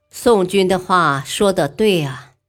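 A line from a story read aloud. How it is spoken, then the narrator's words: Admiring sigh. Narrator (Chinese): 光武帝不禁点头嗟叹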